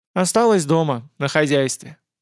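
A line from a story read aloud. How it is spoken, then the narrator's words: Sympathetic sigh, girl. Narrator (Russian): сочувствующе вздохнула девушка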